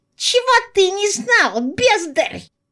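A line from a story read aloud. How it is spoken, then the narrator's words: Squeaky. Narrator (Russian): запищал он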